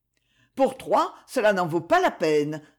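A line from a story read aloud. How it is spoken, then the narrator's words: Curt reply. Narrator (French): répondit-elle sèchement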